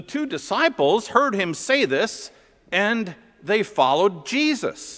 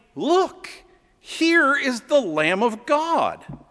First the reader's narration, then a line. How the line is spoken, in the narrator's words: he exclaimed